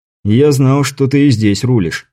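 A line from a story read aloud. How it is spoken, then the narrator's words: Plain. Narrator (Russian): сказал Андрей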